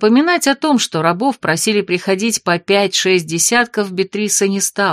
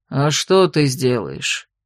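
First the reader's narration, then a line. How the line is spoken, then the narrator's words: Conciliatory sigh, older man. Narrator (Russian): примирительно вздохнул старший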